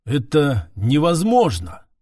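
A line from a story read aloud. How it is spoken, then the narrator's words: Muffled mutter. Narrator (Russian): глухо пробормотал Эрдор, капитан одного из поисковых отрядов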